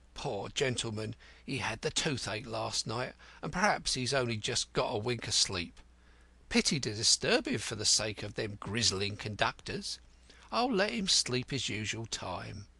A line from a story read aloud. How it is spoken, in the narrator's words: muttering